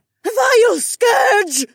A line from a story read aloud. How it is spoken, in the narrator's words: Velralla screeched again